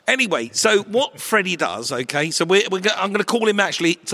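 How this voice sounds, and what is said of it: Usual voice. Nothing is said of it.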